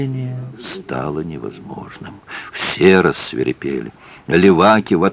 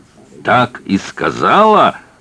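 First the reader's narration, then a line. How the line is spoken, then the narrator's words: Barked. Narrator (Russian): рявкнул Маэ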